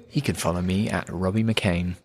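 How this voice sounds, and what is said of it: Smooth radio announcer voice. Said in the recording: “Lovely radio voice there.”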